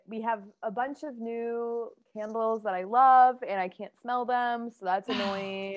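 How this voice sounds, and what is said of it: Voice deeper than usual, unwell. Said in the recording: “tell by my voice, probably sounds a little deeper than usual ... I feel like I sound like a man”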